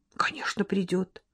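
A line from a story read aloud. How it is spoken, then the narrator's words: Soft, gentle. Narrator (Russian): мягко сказал маркиз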